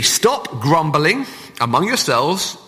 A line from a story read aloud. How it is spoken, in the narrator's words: Jesus answered